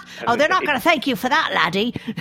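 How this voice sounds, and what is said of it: Attempted British accent sounding like Essex. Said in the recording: “You've got to get your accent right a bit... that was more like sort of, you know, southern, above the estuary, Essex, they call that.”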